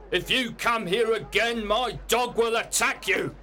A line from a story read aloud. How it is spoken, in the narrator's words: shouted Mr